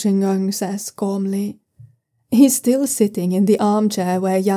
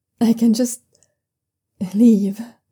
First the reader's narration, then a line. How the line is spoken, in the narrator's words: young Susian suggests a bit shakily